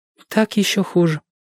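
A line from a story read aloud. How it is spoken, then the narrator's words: Sad. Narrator (Russian): печально сказала Джоанна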